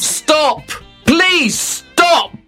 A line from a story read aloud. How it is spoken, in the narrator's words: shouted